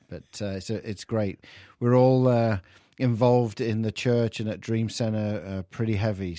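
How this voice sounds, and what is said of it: English accent. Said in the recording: “The English accent coming through.”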